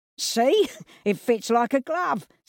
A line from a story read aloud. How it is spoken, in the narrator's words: said Cyril, laughing